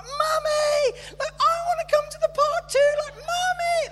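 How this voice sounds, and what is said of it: Imitating a young girl's voice. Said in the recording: “my impression of a young girl”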